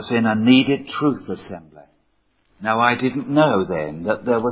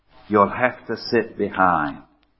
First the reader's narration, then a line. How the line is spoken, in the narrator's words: they quietly said to me